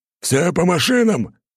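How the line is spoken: Barked order. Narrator (Russian): рявкнул Прохор

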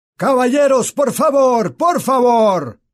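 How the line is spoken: Employee shouting. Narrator (Spanish): gritó un empleado

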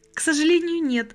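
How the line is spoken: Laughing, trembling voice. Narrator (Russian): Анжела смеялась, но голос задрожал

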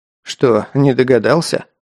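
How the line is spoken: Wry snort. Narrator (Russian): хмыкнул Герман

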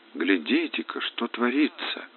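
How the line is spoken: Whispered. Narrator (Russian): шепотом сказал он

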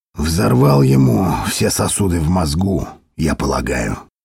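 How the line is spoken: Quiet. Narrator (Russian): тихо сказал Дитр

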